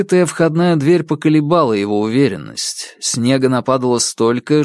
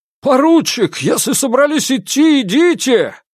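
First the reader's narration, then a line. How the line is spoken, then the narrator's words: Shouting over a blizzard. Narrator (Russian): Перекрывая визг метели, прокричал Волков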